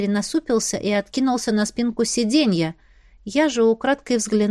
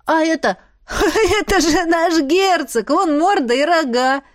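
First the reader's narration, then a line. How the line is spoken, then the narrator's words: Child laughing. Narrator (Russian): Мальчик засмеялся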